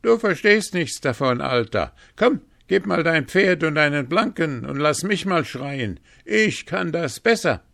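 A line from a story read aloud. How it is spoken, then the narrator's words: Calling out. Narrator (German): rief er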